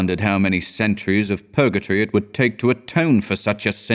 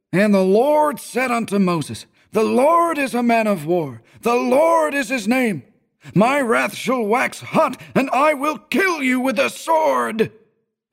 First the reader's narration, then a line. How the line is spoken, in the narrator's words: the minister was a good man, but when he bellowed